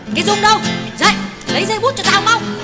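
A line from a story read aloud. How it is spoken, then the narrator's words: Sharp shout at night. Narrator (Vietnamese): giữa không gian vắng lặng của nửa khuya, Tuyết quát con gái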